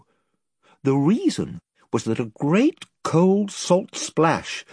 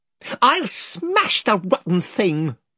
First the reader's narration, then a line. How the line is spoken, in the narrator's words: cried Eustace